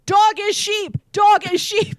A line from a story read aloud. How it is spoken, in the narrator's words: jumping up and down and yelling